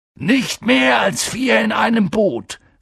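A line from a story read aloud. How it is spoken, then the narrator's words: Call. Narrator (German): rief Hagrid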